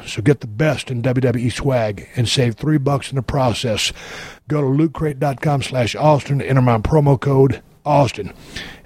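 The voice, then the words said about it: Raspy, hoarse voice. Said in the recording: “I'm sorry for the raspy voice. I've been yelling hard for 3 days.”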